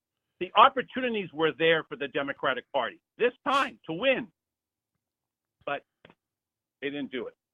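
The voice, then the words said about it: Frustrated voice. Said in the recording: “it is so frustrating, Earl, and you can hear it in my voice.”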